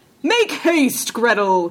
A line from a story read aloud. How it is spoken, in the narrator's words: cried he